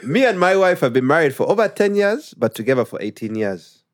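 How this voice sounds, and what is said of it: Put-on Ugandan accent. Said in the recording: “we like him to read in a Ugandan accent. It's funny. ... I read a Ugandan accent.”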